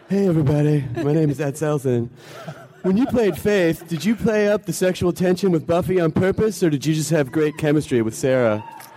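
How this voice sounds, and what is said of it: Imitated voice of a woman fan. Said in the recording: “I'm just doing a voice that I think might be hers”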